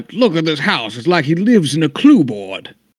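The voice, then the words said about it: Imitates a Kentucky accent. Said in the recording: “Good impersonation. ... I too am from Kentucky?”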